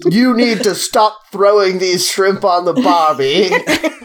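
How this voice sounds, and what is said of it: Mock Australian accent. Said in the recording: “All I can do is the Australian Boston accent.”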